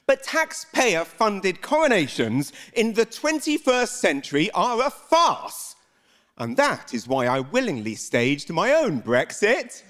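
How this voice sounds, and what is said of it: British accent. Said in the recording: “I am a Brit, that's what this accent is”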